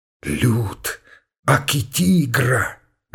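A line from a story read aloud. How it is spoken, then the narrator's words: Cheeky, servile whisper. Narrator (Russian): развязно и приниженно зашептал он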